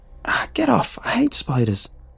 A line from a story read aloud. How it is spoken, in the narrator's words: I squealed